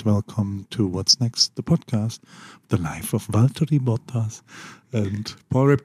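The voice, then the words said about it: Soft, close-mic ASMR-style voice. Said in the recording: “you have to put it very close to your mouth ... ASMR ... That's my podcast voice.”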